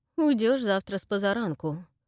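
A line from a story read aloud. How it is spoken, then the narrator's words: Cold. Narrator (Russian): холодно сказала Эстер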